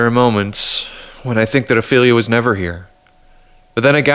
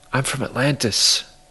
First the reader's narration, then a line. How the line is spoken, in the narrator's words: whispered